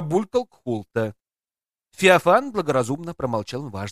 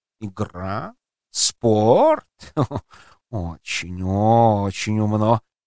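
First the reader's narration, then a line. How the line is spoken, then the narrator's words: Purring. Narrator (Russian): промурлыкал Базиль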